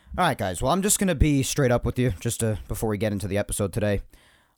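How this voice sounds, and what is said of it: Slightly raspy voice. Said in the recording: “my voice is a little raspy, because my throat's been a little messed up the last couple of days, because my allergies are going haywire”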